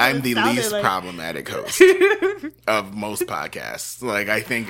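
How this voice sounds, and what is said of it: Usual voice. Nothing is said of it.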